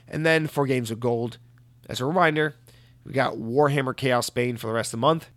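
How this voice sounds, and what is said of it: Hoarse, strained voice from a cold. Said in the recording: “my voice is completely shot. If you can't tell ... I'm developing something of a cold here. And it's really affecting my voice ... I'm losing my steam here.”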